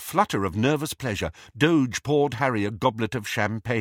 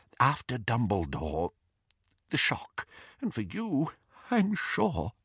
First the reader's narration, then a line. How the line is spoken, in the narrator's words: he whispered